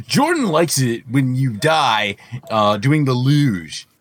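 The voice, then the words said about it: Imitates another person's voice. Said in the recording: “That was my impression of Jordan.”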